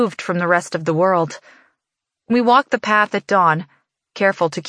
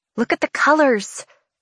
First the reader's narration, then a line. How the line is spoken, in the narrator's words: she murmurs